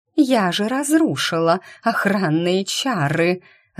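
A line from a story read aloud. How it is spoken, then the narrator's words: Furious howl. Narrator (Russian): Разъяренным зверем взвыла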